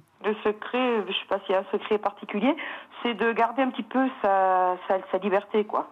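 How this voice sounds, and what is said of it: Singsong southern French accent. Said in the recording (French): “ce petit accent qui chante”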